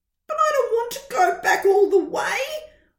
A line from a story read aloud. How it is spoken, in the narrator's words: whined Baby Tortoise